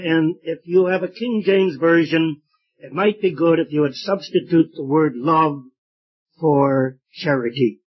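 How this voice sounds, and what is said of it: Weak, strained voice. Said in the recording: “My voice is a little weak tonight.”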